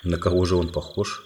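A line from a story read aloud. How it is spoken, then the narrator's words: Plain. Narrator (Russian): спросил король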